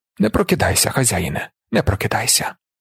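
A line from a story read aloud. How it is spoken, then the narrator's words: Soft, tender, motherly. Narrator (Ukrainian): сказав тихо, з материнською ніжністю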